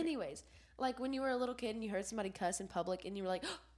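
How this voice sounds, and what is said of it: Sick, weak voice with sniffles. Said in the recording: “I am sick right now. So I sound like a little boy. Like, my voice is kind of gone. And I'm sniffling.”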